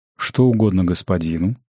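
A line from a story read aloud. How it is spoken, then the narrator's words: Calm friendly question. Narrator (Russian): спокойно и дружелюбно спросил ювелир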